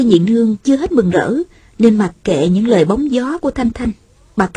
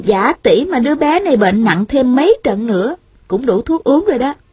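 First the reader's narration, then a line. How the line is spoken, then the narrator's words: Smiling speech. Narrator (Vietnamese): mỉm cười nói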